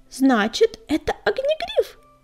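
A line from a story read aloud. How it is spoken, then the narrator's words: Squeaky girl's voice. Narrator (Russian): пропищала девочка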